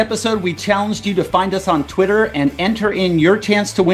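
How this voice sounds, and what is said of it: Usual voice. Nothing is said of it.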